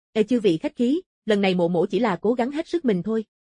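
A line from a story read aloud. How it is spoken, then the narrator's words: Calm, faint smile. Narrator (Vietnamese): Mộ Phong vẻ mặt thản nhiên, khóe môi nhếch lên một nụ cười nhạt, nói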